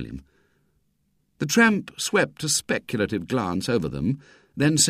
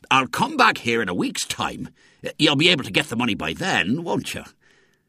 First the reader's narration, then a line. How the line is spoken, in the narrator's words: The Outlaws promised eagerly